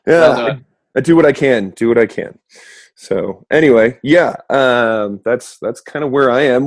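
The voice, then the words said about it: Strained, fading voice. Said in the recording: “I am currently battling keeping my voice. So in other words, I'm losing my voice.”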